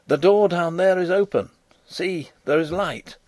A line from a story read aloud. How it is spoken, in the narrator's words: Fritz cried